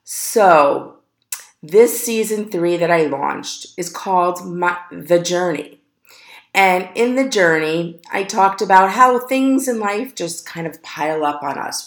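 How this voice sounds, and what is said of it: Deeper than usual, recovering voice. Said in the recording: “I had no voice. So bear with me. I sound a little deeper than usual. Maybe if you say a little sexy. ... deep voice”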